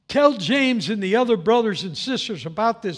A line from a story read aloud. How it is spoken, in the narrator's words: said